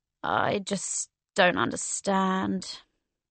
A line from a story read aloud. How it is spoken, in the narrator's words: He made a grumbling noise and said